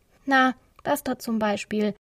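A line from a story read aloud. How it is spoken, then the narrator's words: Dry reply. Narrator (German): erwiderte Maximilian trocken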